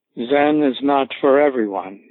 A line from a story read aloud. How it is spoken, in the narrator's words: he said